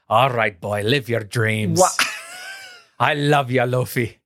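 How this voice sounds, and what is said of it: Put-on Irish or Scottish accent. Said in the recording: “Luck of the Irish ... That's the accent. ... more Scrooge McDuck from DuckTales”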